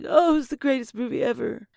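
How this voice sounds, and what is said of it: Imitates another person's voice. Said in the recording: “He doesn't sound anything like that. I don't know why I did that impression.”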